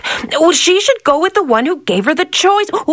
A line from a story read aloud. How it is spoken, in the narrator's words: the princess, who had been listening to the story the whole time, blurted out